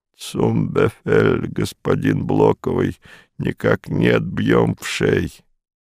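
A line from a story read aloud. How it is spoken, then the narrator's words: Hoarse wheeze. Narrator (Russian): прохрипел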